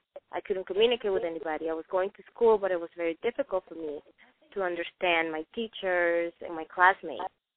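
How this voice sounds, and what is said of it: Non-native English accent. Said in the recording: “everybody can hear my accent.”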